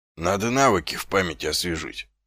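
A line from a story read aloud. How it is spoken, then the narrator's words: Mutter. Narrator (Russian): пробормотал он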